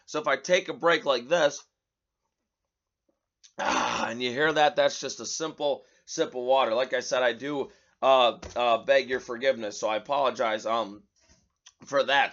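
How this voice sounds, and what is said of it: Raspy, strained voice. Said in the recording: “My voice is a little raspy at this point in time. You can probably tell. ... I guess I've been yelling a lot lately.”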